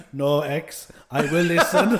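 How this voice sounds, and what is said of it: Attempted Eastern European accent. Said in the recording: “That was an attempt at an Eastern European accent.”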